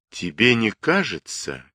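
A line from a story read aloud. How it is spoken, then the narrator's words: Slow speech. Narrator (Russian): медленно проговорил я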